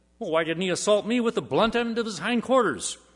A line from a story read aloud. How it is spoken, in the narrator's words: the man responded indignantly